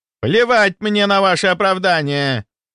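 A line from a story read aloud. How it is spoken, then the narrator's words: Yell. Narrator (Russian): заорал Рудаков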